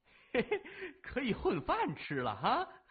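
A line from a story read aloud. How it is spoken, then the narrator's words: Loud gleeful laughing. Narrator (Chinese): 老马听了以后高呼了一声，嬉笑着说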